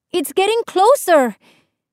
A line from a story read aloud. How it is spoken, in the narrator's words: Isabel cried